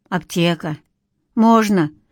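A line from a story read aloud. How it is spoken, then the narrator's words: Taxi driver's timid agreement. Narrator (Russian): согласился таксист робко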